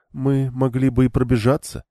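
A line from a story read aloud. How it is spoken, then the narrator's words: Loud unhushed reply. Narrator (Russian): откликнулась Виенда, даже не стараясь говорить тихо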